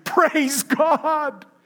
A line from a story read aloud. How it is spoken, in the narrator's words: shouting